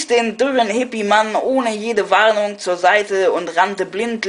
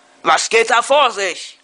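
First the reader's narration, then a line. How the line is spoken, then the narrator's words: Startled outburst. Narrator (German): fuhr ich aus mir, als ich aus dem Keller daraufhin ein dumpfes Poltern und einen unterdrückten Schrei hörte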